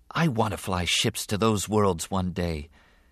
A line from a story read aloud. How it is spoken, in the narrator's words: Anakin said softly